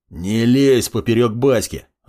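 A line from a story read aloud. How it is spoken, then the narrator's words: Growl. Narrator (Russian): Рыкнул Александр Зайцев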